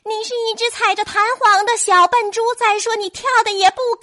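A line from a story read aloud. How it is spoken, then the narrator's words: Shrieking parrot. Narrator (Chinese): 鹦鹉尖叫着说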